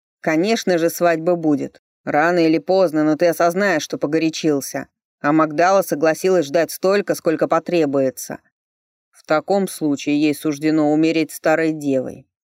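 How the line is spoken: Snapping. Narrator (Russian): огрызнулся Ричард

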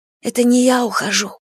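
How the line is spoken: Whisper. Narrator (Russian): шептала Эмия

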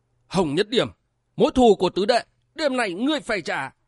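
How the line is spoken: Hissing. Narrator (Vietnamese): Phi Hoàn đại lão rít lên

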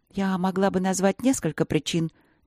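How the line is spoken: Quiet, steady, respectful. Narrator (Russian): не дрогнула Ангелина, но говорила она тихо, уважительно

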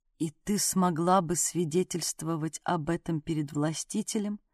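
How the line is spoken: Dead flat voice. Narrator (Russian): Мертвым голосом спросила Хора

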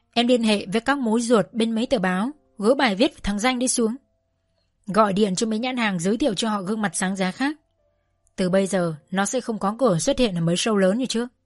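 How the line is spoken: Cold command. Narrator (Vietnamese): ông Bầu Minh Huỳnh lạnh lùng phán

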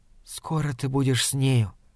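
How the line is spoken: Hurried whisper. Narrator (Russian): торопливо шепнула она

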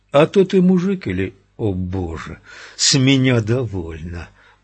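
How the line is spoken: Groaning to no one. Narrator (Russian): простонал, никому конкретно не обращаясь

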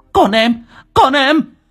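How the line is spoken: Shouting. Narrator (Vietnamese): Trang hét lên

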